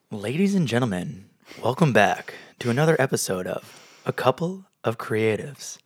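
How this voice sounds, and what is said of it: Radio announcer voice. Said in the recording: “It's my radio announcer voice, my podcasting voice.”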